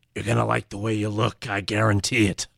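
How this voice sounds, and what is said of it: Deep baritone imitation of another person. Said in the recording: “That baritone ... That was my best imitation.”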